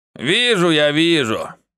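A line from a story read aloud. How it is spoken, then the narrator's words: Gruff mutter. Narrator (Russian): буркнул кот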